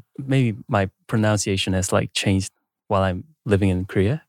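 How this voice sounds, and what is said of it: Slight Australian-sounding English accent. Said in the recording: “where are you from your accent? ... Like, Australia maybe? ... A little bit. Aussie accent.”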